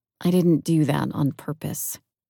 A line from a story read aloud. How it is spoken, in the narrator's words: Softly, I replied